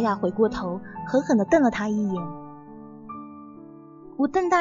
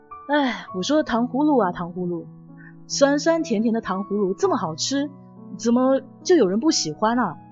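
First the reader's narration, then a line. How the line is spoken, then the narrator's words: Angry heavy sigh. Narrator (Chinese): 气呼呼的 杨重重的叹气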